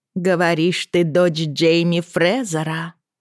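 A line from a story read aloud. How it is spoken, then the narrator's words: Ringing cold voice. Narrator (Russian): сказала она звонким холодным голосом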